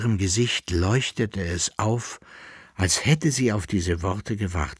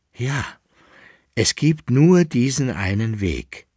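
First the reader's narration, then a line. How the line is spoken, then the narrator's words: Firm voice. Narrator (German): erklärte sie mit fester Stimme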